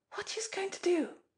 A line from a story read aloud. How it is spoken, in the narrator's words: she whispered wildly